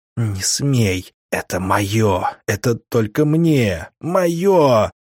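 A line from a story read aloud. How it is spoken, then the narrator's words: Hysterical inner whisper. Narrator (Russian): завопил истеричный шепот у меня в голове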